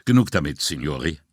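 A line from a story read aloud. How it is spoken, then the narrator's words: Sharp. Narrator (German): sagte unerwartet scharf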